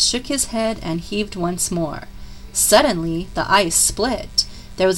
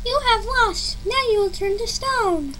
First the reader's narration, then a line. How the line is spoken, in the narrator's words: The Pigwidgeon cried